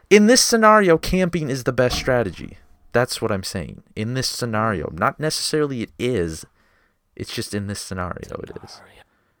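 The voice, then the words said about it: Northern Minnesota accent. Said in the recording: “Is that how you guys say it? Scenario? ... I'm fucking northern. I'm from Minnesota. I fucking talk like an idiot.”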